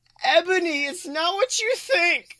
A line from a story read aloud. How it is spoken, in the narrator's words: Draco screamed sadly